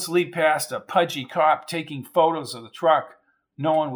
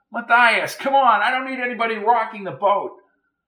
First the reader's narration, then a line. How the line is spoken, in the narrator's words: Donovan shouted at him